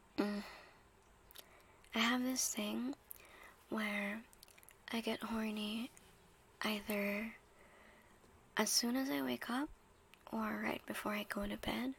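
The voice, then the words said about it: Raspy, quiet morning voice. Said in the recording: “my voice sounds quite raspy, because this is kind of my morning voice, I think. ... that's why I sound raspy and quiet, because I don't really feel like raising my voice”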